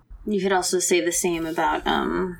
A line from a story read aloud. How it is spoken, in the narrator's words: Gumsu yelling at Seiroyi